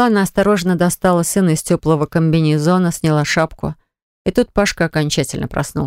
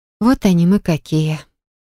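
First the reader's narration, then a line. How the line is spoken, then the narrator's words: Tender voice. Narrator (Russian): сказала нежным голосом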